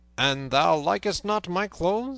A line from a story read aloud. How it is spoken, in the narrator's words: said Robin, in a harsh voice like that of Guy of Gisborne